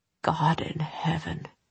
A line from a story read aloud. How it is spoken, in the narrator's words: he whispered